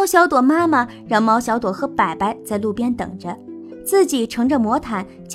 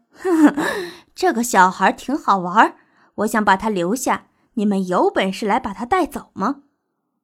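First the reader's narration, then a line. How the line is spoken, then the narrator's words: Sly, malicious laugh. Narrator (Chinese): 布洛洛脸上露出不怀好意的笑，说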